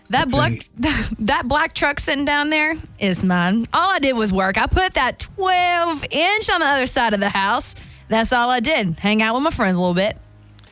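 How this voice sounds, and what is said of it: Put-on Southern American accent. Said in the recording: “It says in a southern accent.”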